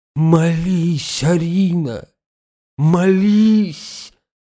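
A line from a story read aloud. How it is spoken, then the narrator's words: Moaning plea. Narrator (Russian): простонал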